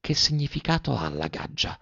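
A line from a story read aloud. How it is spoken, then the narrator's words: Whispered question, blushing. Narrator (Italian): le domandò sottovoce più rossa della veste della signora Zucchi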